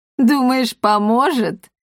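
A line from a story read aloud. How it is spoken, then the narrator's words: Bursting laughter. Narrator (Russian): расхохоталась Сцилла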